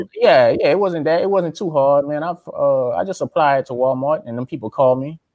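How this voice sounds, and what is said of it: Louisiana accent. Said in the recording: “I was from Louisiana... she heard my accent”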